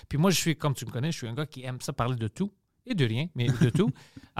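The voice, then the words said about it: Greek accent in French. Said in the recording (French): “leur accent est moins offusquant que le mien ... Tu grec, c'est un accent plus loin”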